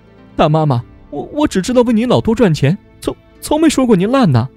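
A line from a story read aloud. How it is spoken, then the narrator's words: Sobbing. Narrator (Chinese): 梅枝呜呜哭着说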